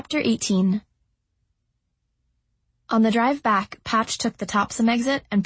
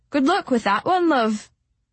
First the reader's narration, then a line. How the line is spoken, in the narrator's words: Rickson called out to me